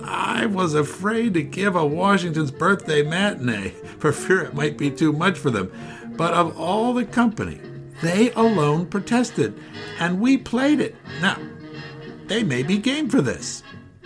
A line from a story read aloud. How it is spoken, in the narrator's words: chuckled